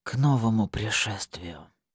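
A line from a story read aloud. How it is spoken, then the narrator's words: Whisper. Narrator (Russian): прошептал Богомол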